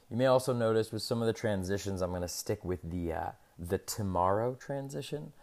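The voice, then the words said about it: Deeper, scratchy voice. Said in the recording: “my voice is a little deeper or scratchier than usual. I'm fighting a little bit of a cold here”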